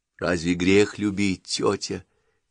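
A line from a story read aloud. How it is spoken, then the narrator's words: Quiet question. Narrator (Russian): тихо спросила Маруся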